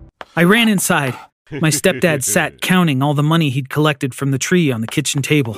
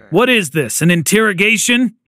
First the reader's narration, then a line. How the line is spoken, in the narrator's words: He snapped